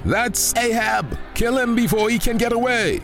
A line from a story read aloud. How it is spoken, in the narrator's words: shouted a Syrian commander